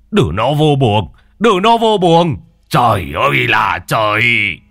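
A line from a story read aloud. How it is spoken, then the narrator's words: Shouting grandfather. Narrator (Vietnamese): ông ngoại quát lên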